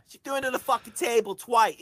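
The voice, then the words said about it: Put-on Cockney accent. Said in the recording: “I just did a Cockney prostitute.”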